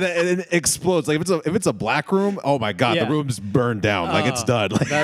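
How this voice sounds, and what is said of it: Usual voice. Nothing is said of it.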